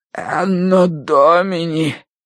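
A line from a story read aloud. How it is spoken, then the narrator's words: Hoarse wheeze. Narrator (Russian): прохрипел клирик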